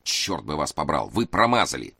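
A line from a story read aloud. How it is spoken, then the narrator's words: Growled. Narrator (Russian): Карабин снова рыкнул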